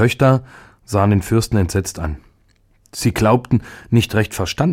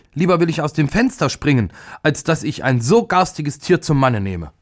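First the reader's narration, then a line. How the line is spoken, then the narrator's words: Furious scream. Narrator (German): wurde vor Zorn ganz weiß und schrie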